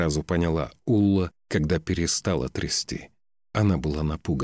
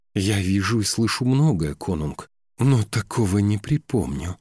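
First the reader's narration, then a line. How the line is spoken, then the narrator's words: Breathed out. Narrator (Russian): выдохнула она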